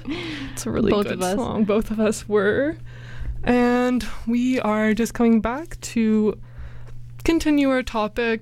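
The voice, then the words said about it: Slightly out of breath. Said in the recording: “I'm slightly out of breath because I was dancing around.”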